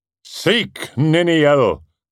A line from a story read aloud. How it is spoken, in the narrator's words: cried Turin